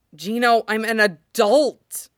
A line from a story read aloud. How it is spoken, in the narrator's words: Sid hisses, scandalized